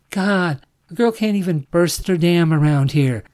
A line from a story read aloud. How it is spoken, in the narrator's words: she cried